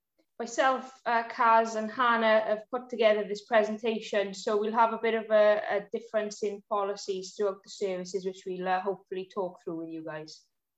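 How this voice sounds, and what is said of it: South Wales accent. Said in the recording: “Sorry if you can't understand my accent, but I'm from South Wales”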